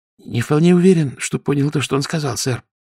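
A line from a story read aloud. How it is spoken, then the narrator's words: Nervous whisper. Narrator (Russian): нервным шепотом ответил лейтенант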